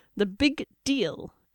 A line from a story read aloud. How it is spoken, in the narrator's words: Avon said through gritted teeth